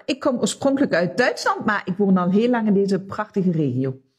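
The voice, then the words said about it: Light foreign accent. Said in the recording (Dutch): “ik hoor een licht accent”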